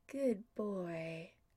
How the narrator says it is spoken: Adam murmurs against Tommy's shoulder

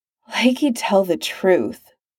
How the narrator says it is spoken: Clint sighed

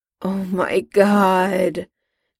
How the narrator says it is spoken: Jim groaned, this time in defeat

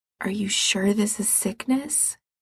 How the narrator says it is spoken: Gerard says quietly

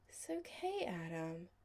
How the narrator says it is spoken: Chris said sleepily

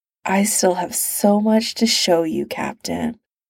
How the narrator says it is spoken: he murmurs

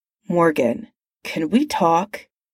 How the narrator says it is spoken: He said tightly

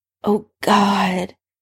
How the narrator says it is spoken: Severus breathed when Harry bit gently onto one of his nipples

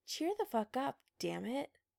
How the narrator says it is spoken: said grimly

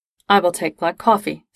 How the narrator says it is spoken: Spock said

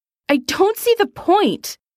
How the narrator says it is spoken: Eric shouts at his mother

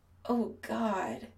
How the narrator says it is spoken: Chris moans

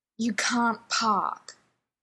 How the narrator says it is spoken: the driving instructor growls

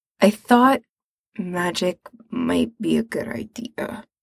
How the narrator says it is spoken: he mumbles

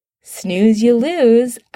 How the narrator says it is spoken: Adam says, crunching happily

